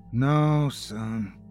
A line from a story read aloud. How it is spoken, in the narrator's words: he said, sighing in utter annoyance